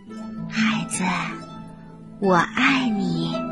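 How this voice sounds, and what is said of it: Soft, quiet, smiling voice. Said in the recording (Chinese): “小声微笑着说”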